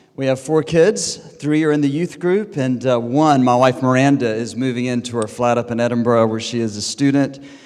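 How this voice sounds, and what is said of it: American accent. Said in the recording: “You can tell by my accent. There are all these Americans around Cambridge. I'm one of them.”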